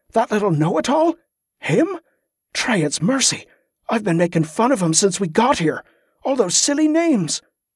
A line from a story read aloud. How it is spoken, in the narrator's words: Wick sputtered